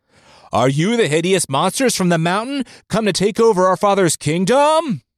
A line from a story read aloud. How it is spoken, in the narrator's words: voices yelled